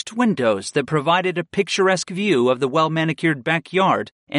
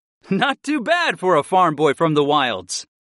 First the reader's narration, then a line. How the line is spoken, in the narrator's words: I laughed